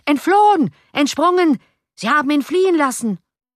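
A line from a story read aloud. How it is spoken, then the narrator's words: Furious shouting crowd. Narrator (German): vor Zorn glühende Gesichter zeigten sich an den Fenstern und schrien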